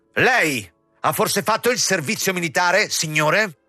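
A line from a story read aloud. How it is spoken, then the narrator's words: Shouting. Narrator (Italian): gridando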